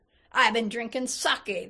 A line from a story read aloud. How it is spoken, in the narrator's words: the laborer bellowed back